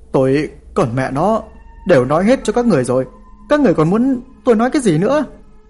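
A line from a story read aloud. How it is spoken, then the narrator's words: Exasperated loud shout. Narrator (Vietnamese): tôi thật sự không nhịn nổi, ôm đầu mà hét lớn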